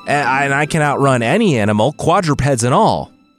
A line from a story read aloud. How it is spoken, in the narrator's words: William shouted, breathless at the end of his long resume